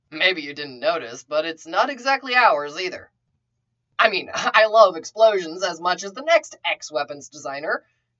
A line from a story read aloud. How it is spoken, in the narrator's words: With a laugh, Bucky said